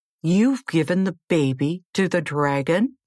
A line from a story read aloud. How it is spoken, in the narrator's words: cried